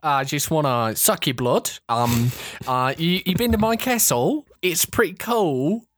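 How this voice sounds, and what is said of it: Confident put-on Australian accent. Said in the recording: “such a good Australian accent ... he's just so confident when he's doing it”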